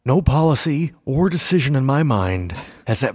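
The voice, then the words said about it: Bad Ronald Reagan impression. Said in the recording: “worst Ronald Reagan impersonation in history”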